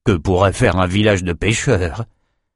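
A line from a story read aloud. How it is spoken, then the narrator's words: Muttered. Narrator (French): marmonna Auron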